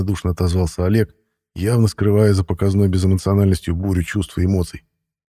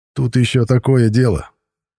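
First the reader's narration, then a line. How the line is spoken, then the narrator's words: Wry snort. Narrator (Russian): хмыкнул рыжебородый Матвей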